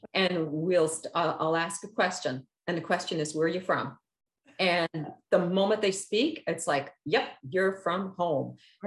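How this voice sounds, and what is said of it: Newfoundland accent. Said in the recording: “that person's from Newfoundland ... Accent is a giveaway ... I love your accent.”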